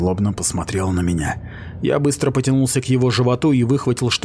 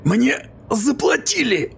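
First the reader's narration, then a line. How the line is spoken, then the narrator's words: Hoarse rasp. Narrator (Russian): прохрипел он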